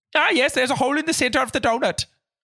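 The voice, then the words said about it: Put-on Swedish accent. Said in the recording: “my detective would be from Sweden ... the accent they would possess”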